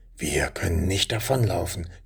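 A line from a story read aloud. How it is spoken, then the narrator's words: Whispered reply. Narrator (German): gab flüsternd zurück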